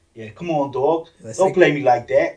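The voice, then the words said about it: Imitated New York accent. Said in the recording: “Is the New York accent exaggerated? ... Oh, it's exactly what you'd think it'd be.”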